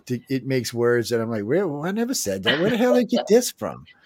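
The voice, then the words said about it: Cajun accent. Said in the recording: “my Cajun accent”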